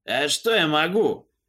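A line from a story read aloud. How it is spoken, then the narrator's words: Sudden anger, sorcerer. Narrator (Russian): неожиданно зло колдун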